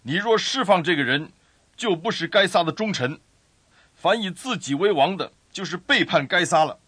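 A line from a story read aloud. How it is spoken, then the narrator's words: Crowd shouting. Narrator (Chinese): 犹太人喊着说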